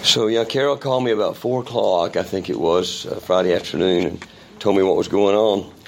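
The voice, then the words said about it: Strained voice, sounds unwell. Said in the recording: “As you can probably tell by my voice, I've been having a little respiratory issue this week as well. So pray that my voice will hold out”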